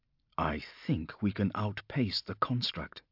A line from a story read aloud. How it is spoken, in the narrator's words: he said quietly